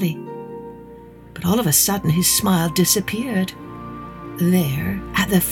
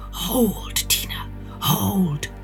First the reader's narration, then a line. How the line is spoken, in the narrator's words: whispered